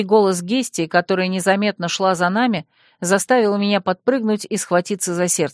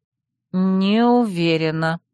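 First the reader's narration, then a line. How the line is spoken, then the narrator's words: Drawn out. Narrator (Russian): протянула я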